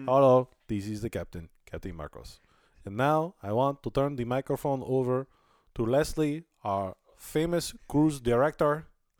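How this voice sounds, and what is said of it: Imitated Italian accent, spot on. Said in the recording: “the captain's got a funny accent, too. He's Spanish... Italian... that's actually pretty spot on.”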